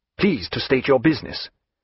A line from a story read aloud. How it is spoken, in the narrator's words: he said somewhat sharply